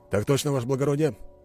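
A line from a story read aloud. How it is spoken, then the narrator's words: Brisk, cheerful reply. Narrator (Russian): бодро ответил он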